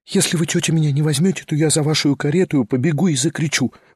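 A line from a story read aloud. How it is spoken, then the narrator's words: Quick desperate whisper in ear. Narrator (Russian): быстро и отчаянно прошептала она совсем на ухо Варваре Петровне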